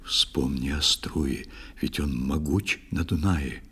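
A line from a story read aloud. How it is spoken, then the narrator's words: Whisper. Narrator (Russian): Ундине, однако, шепнул он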